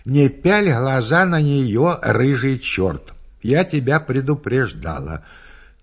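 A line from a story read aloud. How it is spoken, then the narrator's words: Calm voice. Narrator (Russian): Она мне спокойным голосом отвечает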